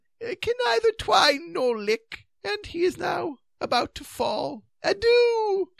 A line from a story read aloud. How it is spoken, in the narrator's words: said Sir Palamedes feebly, finally, and with aversion